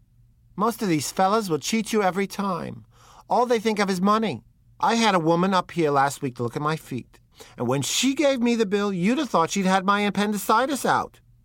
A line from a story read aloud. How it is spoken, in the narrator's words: she told her sister in a high, mincing shout